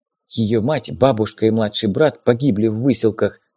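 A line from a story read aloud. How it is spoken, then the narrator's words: Whispered. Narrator (Russian): шепнула Елена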